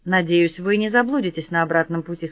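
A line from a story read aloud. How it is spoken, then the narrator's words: Plain. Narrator (Russian): сказала я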